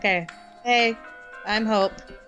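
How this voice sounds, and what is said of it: Sad, downbeat voice. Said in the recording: “You sound so sad.”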